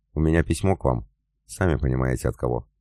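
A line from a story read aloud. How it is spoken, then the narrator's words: Soft smiling voice. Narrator (Russian): мягко улыбнулся Омельченко и добавил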